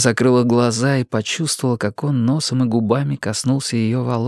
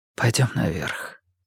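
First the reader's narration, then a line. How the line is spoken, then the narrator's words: Whispered. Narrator (Russian): прошептал он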